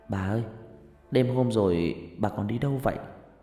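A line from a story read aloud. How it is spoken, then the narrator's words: Soft question. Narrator (Vietnamese): Huyền khẽ hỏi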